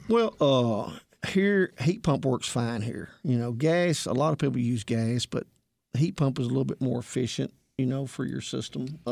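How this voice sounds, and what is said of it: American country accent. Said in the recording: “my country accent”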